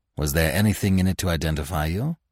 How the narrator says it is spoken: asked Manfred in a troubled tone

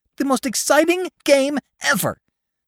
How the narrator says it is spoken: gasped Mink, pink-faced

